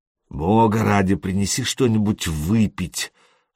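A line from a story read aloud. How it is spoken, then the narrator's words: Mumble. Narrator (Russian): промямлил он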